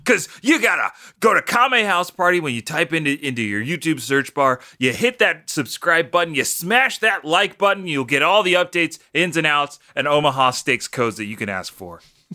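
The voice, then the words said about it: Exaggerated hyped YouTuber voice. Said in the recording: “putting on my embarrassing YouTuber voice.”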